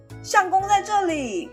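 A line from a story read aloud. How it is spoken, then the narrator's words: Shouting. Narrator (Chinese): 喊说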